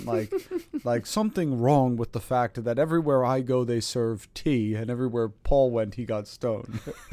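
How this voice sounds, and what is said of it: Imitated British accent. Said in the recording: “This is my best British accent. ... that was so accurate ... He has a very particular accent too. It's specifically just British.”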